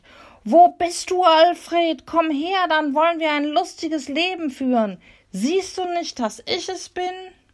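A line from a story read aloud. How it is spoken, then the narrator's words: Shouting as loud as possible. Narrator (German): Michel schrie so laut wie möglich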